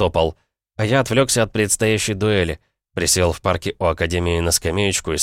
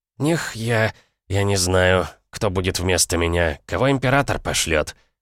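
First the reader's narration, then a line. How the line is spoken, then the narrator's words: Smirking snort. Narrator (Russian): хмыкнул мастер-наставник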